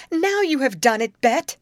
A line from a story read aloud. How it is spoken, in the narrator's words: cried Grace